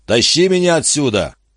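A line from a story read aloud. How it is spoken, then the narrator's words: Shout. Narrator (Russian): крикнул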